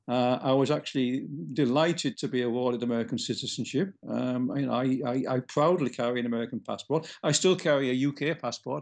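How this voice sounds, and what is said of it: Non-American accent. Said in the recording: “while his accent may imply otherwise ... As people might be able to tell from your accent, you were not born in the United States”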